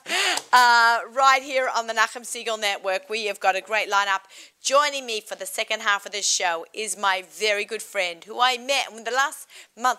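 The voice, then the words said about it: Australian accent. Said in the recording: “I have an Australian accent.”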